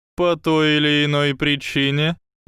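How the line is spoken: Mocking reply. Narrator (Russian): насмешливо ответил профессор Квирл

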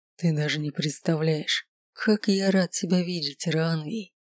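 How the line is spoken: Hoarse hypnotic voice. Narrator (Russian): хриплых ноток в гипнотическом голосе

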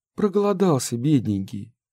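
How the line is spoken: Sigh. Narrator (Russian): вздохнула Ольга

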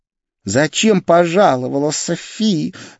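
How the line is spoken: Angry hiss. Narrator (Russian): зло прошипела блондинка

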